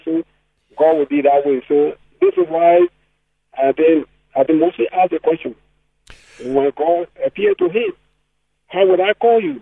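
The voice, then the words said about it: Strong accent, hard to follow. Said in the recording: “I'm not sure everyone can catch on to everything that you're saying there with your accent.”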